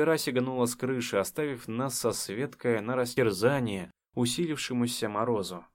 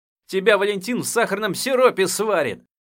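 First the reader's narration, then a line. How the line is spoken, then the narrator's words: Helpless shout. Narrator (Russian): Бессильно выкрикнул я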